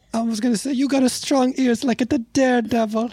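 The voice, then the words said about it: Italian accent. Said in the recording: “I feel like you didn't used to be Italian. ... you didn't have an accent.”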